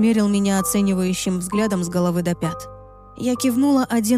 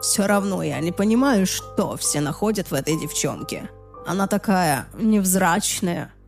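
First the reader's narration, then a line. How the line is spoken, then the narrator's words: Muttering. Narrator (Russian): пробормотал он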